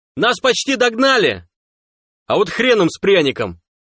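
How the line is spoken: Jubilant yell. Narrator (Russian): Ликующе завопил сталкер

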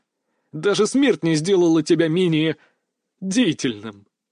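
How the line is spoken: Laughing loudly. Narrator (Russian): Дмитрий тоже расхохотался

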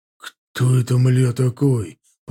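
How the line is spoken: Hoarse wheeze. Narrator (Russian): прохрипел Женя

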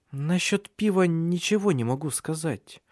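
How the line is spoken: Boy's uncertain reply. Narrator (Russian): неуверенно ответил мальчик

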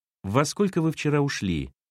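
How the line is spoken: Plain. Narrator (Russian): спросил Сергей

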